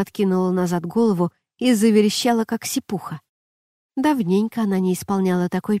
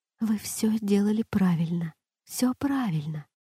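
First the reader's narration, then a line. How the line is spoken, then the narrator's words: Quick private whisper. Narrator (Russian): быстро, так, чтобы услышала только она, прошептала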